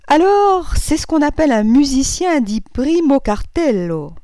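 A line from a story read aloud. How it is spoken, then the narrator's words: Abrupt resolute exclamation. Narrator (French): s'écria-t-il avec une brusque résolution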